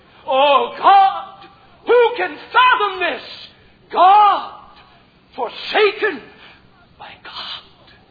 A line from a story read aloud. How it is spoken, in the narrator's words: threw up his hands and exclaimed